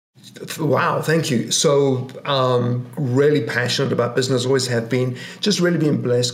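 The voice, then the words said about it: English accent. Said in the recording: “You got the English accent”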